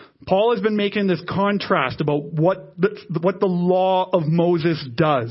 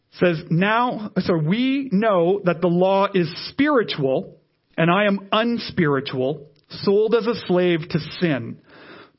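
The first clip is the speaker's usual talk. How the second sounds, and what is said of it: Reading slowly. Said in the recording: “I'm going to read this slowly.”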